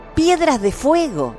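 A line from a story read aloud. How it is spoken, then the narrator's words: Grandmother's exclamation. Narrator (Spanish): exclamó la abuela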